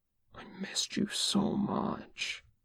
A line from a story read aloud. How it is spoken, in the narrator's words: Mark whispered in his ear